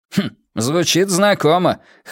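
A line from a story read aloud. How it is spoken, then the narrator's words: Wry grunt. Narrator (Russian): хмыкнул офицер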